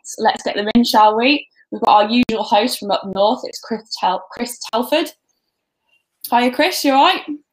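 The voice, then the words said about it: Brummie (Birmingham) English accent. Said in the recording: “my dull Brummie accent”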